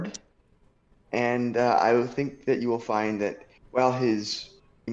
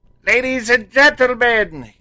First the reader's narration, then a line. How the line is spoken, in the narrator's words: yells a figure off the screen